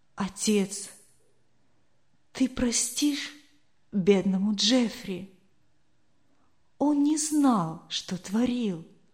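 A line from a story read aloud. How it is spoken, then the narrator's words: Whispering. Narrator (Russian): он шептал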